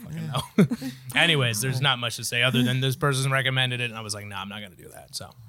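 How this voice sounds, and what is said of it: Usual voice. Nothing is said of it.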